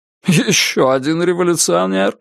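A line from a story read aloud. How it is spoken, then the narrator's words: Laughing. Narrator (Russian): рассмеялся Сергей Михайлович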